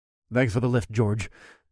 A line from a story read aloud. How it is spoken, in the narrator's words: mumbled